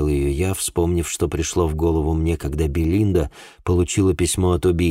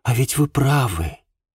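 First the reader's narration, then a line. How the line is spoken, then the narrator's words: Surprised sigh. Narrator (Russian): удивленно вздохнула Шарлотта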